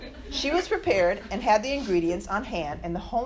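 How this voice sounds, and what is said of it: Usual voice. Nothing is said of it.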